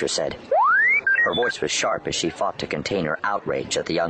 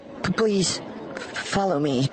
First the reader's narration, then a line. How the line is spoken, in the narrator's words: stammered